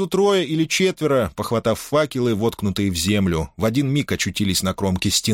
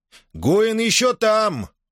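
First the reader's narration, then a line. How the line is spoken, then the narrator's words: Shouted. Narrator (Russian): крикнул Ких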